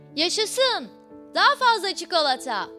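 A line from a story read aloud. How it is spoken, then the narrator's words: Crowd shouting. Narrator (Turkish): diye bağırmış insanlar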